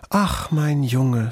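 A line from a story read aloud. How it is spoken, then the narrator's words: Moved sigh. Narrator (German): seufzte die Füchsin gerührt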